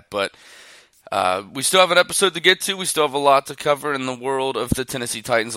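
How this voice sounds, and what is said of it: Slightly sick-sounding voice. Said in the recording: “I'm a little bit sick, so you're probably going to hear it in my voice”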